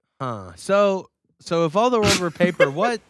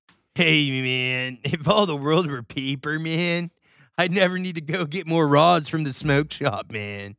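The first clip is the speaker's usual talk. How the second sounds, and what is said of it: Stoner guy character voice. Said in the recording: “That's my weed guy impression.”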